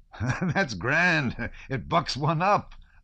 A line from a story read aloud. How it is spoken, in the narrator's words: laughed the first